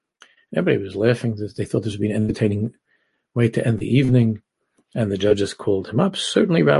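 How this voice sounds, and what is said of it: Usual voice. Nothing is said of it.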